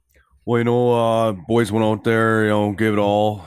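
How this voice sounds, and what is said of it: Put-on Canadian prairie hockey accent. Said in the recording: “do a true Canadian accent ... that Saskatchewan, Alberta, that hockey talk accent ... The prairies or up northern Ontario ... do a hockey interview”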